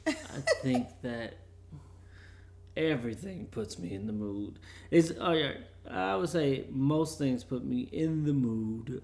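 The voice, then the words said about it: Quiet, low bedtime voice. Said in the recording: “I'm going to talk in my bedtime voice because it is our bedtime right now”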